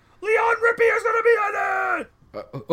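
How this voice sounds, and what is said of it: Excited yelling. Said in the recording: “Why are you yelling at us? ... if you could just keep it down a bit”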